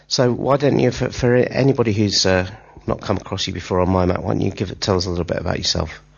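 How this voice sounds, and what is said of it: Stuffy, congested, richer-sounding voice. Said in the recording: “you can probably hear I've got a bit of a cold, but it does seem to have done some enrichment to my voice”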